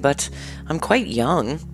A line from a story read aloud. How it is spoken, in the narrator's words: replied uneasily